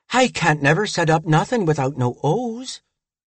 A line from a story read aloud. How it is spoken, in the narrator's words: said, gasping for breath